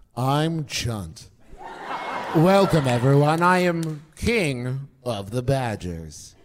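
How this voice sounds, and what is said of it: Impression of Chunt. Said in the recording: “do an impression of Chunt”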